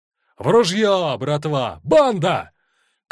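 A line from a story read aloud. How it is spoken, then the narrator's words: Shout. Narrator (Russian): крикнул Павка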